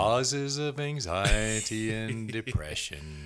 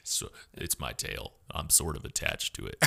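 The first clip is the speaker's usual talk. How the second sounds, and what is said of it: Attempted deep, falling Eeyore voice. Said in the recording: “talking in like Eeyore voices ... Can you do an Eeyore voice? ... I don't think my voice gets that deep ... My voice doesn't go that deep ... the secret to his voice is it starts up and goes down”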